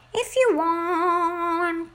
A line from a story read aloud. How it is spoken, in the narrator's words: he cried